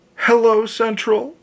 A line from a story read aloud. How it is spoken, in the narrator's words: she gasped, almost inaudibly